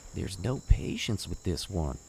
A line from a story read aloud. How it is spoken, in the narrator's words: He leaned in to whisper to Quinn